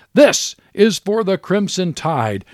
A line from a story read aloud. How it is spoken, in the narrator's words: shouting